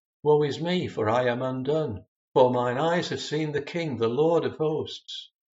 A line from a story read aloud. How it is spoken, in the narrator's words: when Isaiah had a vision of his glory, he exclaimed